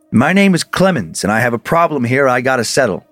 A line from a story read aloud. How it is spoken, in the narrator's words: his spirit spoke, firmly stating